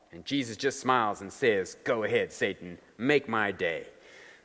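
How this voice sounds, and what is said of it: Texan accent imitating Joel Osteen. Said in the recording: “The Texan accent is not Jesus's, it's Joel Osteen's.”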